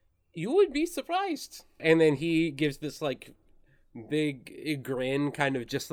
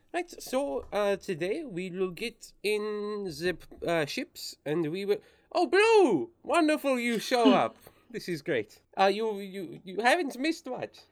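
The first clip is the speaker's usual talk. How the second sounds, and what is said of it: Put-on accent drifting toward German. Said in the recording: “your German accent has now gone full Taika Waititi, What We Do in the Shadows ... I thought you were supposed to be French ... I heard you dip into German a little bit”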